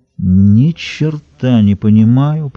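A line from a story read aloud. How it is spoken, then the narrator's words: Drawling like a rustic bumpkin. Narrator (Russian): протянул Смолин с видом законченного деревенского вахлака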